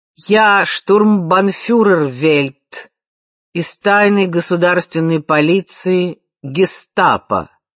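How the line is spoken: Heavy accent. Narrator (Russian): с сильным акцентом сообщил человек в черном

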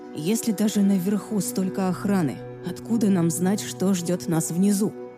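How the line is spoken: Plain question. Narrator (Russian): спросил Аарон

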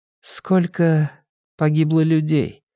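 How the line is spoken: Unusually quiet question. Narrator (Russian): спросила Мэйна Гладстон непривычно тихо

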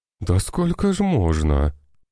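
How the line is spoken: Groaning head doctor. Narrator (Russian): простонал главврач

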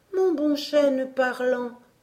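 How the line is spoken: Pleading tone. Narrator (French): reprit aussi Emmy d'un ton suppliant

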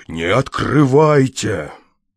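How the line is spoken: Exclaimed. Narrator (Russian): воскликнув

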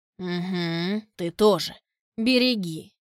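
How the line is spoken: Listless snapping retort. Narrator (Russian): вяло огрызнулся Шираз

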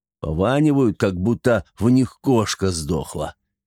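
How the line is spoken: Grumbling. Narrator (Russian): проворчал он

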